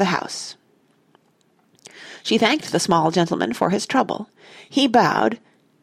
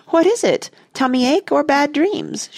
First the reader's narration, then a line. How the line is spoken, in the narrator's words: cried